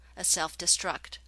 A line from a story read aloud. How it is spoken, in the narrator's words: Holling reported grimly